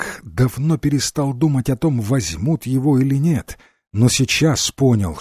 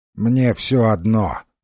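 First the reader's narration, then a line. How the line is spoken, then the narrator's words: Fairy, through teeth. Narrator (Russian): процедила фея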